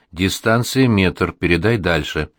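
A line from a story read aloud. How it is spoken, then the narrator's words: Quiet speech. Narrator (Russian): Впереди идущий тихо говорит мне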